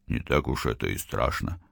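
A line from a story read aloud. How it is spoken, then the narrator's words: Grumbled. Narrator (Russian): пробурчал русский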